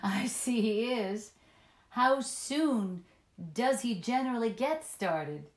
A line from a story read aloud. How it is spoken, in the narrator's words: caught up her laughter and echoed it heartily